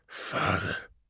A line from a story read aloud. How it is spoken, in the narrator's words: breathed the avatar of burning misery in reply